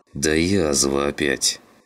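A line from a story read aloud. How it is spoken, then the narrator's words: Through gritted teeth. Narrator (Russian): процедил сквозь зубы Клим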